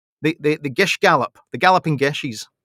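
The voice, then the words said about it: Put-on Scottish accent. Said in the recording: “when you say it in a Scottish accent, it sounds funnier.”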